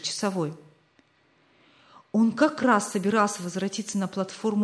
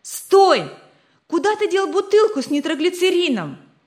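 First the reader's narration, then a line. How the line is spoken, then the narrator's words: Shouting. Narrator (Russian): закричал Рик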